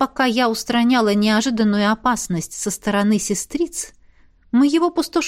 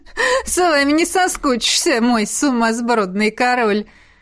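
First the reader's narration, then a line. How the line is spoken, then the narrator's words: Laughing dragon. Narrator (Russian): Хохотнул снежный дракон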